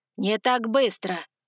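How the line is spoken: Growling. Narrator (Russian): рыкнул он

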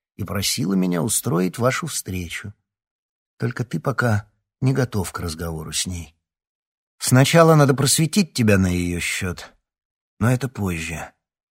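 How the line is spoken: Calm. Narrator (Russian): спокойно повторил Гордей

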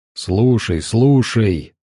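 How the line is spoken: Growled into ear. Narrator (Russian): Морфей зарычал Розе на ухо

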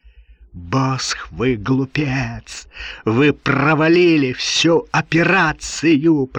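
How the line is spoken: Hissing. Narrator (Russian): прошипел Ролленбергер

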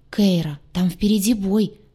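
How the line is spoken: Excited, agitated speech. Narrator (Russian): взволнованно проговорил Декар

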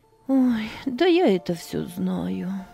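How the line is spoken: Sighing. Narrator (Russian): вздохнула Анна

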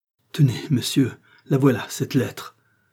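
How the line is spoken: Broken, quivering exclamation. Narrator (French): s'écria la reine, d'une voix entrecoupée et frémissante

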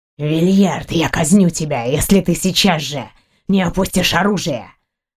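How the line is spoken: Growled threat. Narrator (Russian): прорычал брат императора

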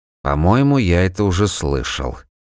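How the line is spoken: Grumbling. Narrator (Russian): пробурчал Жуга

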